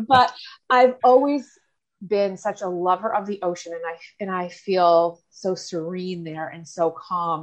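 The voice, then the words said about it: Cape Breton Nova Scotia accent. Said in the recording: “I am from Cape Breton, Nova Scotia, as you can probably tell from my accent.”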